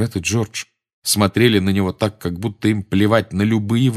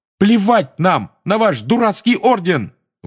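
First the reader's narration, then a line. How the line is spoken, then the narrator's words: Shouted out. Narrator (Russian): выкрикнул Фред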